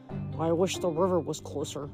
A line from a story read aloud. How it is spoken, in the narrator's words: Percy muttered